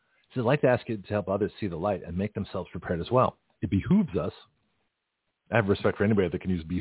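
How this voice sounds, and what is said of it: Usual voice. Nothing is said of it.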